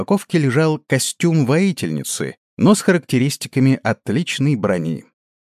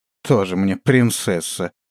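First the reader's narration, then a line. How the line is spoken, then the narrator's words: Scornful snort. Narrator (Russian): фыркнула Ганга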